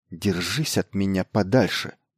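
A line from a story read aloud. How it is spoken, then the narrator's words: Quiet snapping retort. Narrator (Russian): негромко огрызнулась на нее бледная Эскобарка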